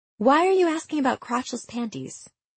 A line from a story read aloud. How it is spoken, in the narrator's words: Kate sighed on the other end of the phone